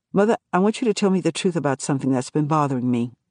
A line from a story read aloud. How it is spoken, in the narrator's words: she said